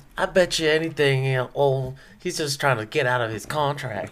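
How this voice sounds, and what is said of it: Put-on small-town local accent. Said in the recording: “That's exactly how they sound like in Snowflake. ... That's my Snowflake accent.”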